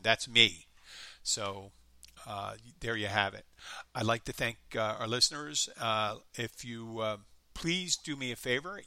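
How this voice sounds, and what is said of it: Light Philadelphia accent. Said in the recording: “you can tell by my accent ... this crappy pseudo light Philadelphia accent ... that's a shitty Philadelphia accent you're doing there ... that's a real Philadelphia accent”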